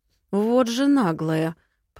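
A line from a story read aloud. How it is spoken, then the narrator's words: Through gritted teeth. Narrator (Russian): процедил почтенный лорд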